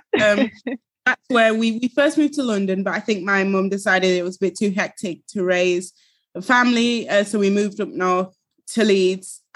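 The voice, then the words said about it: Northern English accent. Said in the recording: “you've also got an accent as well, which sounds northern”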